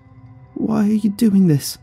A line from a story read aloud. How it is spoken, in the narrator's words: she called out meekly